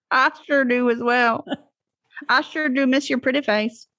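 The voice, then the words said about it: Put-on playful accent. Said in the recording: “Why did we hit right into accents right away? ... That's our vacation accent. ... No offense to anyone with that accent in real life.”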